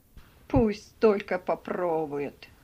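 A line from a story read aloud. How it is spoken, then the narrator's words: Malicious smirk. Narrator (Russian): Злобно усмехнулся Легри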